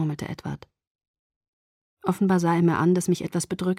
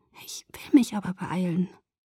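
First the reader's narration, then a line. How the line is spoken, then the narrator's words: Whisper with strained smile. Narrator (German): flüsterte und lächelte mühsam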